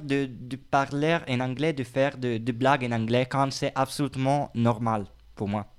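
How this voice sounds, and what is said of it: Strong Italian accent. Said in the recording (French): “mon accent anglais c'est très très italien ... Aussi en français mon accent c'est très très, très italien”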